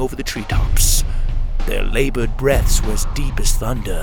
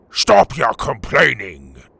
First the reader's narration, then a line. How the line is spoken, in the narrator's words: Tuga roared